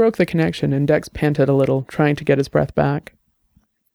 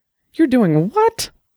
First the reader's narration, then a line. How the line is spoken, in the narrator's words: Her voice was almost shrill